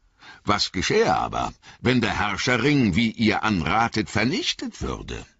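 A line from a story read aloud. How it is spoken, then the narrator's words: Plain question. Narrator (German): fragte Gloin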